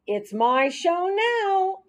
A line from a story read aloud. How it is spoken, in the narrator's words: squeaked